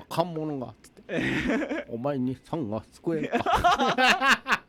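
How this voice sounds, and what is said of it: Impression of an animated wolf character. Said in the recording (Japanese): “似てるでしょ... モロです... 自慢のモノマネ”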